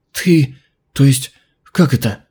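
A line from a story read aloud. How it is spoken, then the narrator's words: Breathed out in sudden realization. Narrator (Russian): Внезапно она поняла и выдохнула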